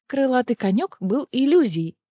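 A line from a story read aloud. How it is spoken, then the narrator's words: Plain. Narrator (Russian): сказала Неста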